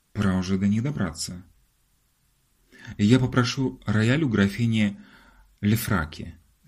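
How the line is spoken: Plain. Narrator (Russian): сказал Ларри

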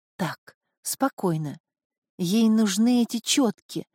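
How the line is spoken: Whispering. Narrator (Russian): зашептала, обращаясь к Исидору

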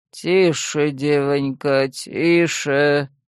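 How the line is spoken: Persuasive low drone. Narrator (Russian): убедительно прогудел в ухо мужик справа

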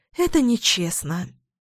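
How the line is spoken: Sighing. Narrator (Russian): вздохнула я

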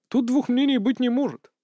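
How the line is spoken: Timid reply. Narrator (Russian): робко отвечал сын государя

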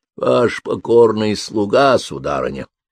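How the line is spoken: Sepulchral voice. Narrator (Russian): произнес он загробным голосом

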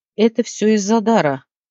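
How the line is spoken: Breathy exhale. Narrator (Russian): выдохнула

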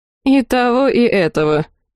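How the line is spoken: Wry snort. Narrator (Russian): хмыкнула Дерхана

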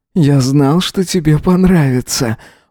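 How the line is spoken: Breathless exhale. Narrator (Russian): выдохнул Эзра

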